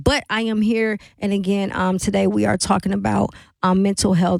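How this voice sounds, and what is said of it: Slightly off voice, unwell. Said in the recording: “my voice may be a little off today. I am under the weather”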